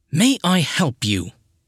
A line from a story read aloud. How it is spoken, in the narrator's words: Enos replied, a bit testily